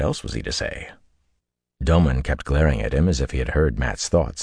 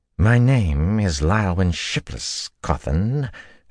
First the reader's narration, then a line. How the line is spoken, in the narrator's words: she drawled